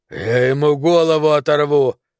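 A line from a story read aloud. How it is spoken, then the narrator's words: Growling through clenched teeth. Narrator (Russian): рычал сквозь стиснутые зубы дюймовочка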